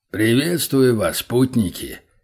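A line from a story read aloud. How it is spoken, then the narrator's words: Strong deep greeting. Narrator (Russian): сильным густым голосом поздоровался он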